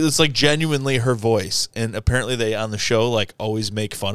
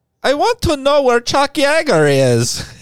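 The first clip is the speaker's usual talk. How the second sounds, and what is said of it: Imitated heavy accent. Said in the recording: “has like a heavy accent.”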